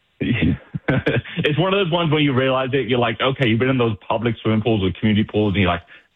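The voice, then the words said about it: British accent. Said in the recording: “where is your accent from? ... The UK.”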